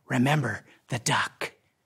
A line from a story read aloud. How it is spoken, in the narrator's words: Again, she whispered